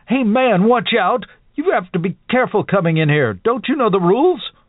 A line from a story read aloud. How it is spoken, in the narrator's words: His face twisted with a sudden rage as he screamed at the boy